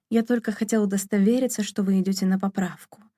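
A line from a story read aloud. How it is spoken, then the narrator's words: Soft but insistent. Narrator (Russian): мягко настаивал он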